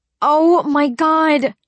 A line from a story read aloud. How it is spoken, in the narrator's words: I shouted